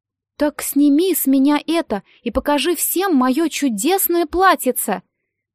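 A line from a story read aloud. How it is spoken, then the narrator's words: Exclamation. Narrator (Russian): воскликнула Золушка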